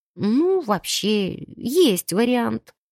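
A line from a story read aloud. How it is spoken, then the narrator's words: Uncertain drawl. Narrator (Russian): неуверенно потянула я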